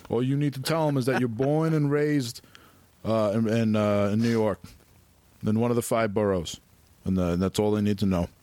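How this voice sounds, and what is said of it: Overbearing New York City uncle voice. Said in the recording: “my new impression overbearing New York City uncle”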